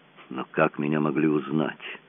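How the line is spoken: Mumbling. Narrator (Russian): пробормотал он

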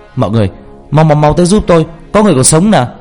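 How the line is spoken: Shouting. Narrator (Vietnamese): anh la lên

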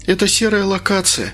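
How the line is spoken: Sighing. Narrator (Russian): вздохнула Инга

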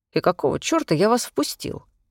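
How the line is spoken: Grumbling from behind. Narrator (Russian): раздалось ворчание за спиной

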